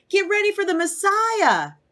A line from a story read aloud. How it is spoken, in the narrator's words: exclaimed John